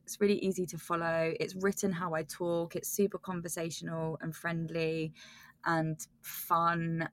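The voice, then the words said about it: Croaky British accent. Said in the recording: “my croaky British accent ... My voice is already really croaky”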